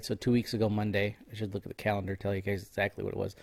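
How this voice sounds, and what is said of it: Nasal, congested voice. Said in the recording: “If I sound nasally, I apologize for that too. Might get some nose blows here.”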